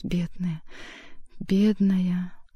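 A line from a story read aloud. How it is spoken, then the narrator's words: Tender muttering. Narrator (Russian): стал бормотать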